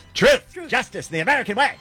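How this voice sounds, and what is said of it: Mark Levin impression, shouty. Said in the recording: “Mark Levin yells at us ... I'll do it in my Mark Levin voice.”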